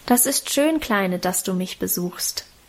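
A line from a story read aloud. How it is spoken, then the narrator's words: Plain. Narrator (German): sagte sie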